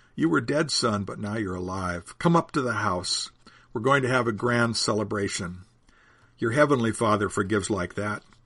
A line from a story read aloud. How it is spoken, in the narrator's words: Jesus says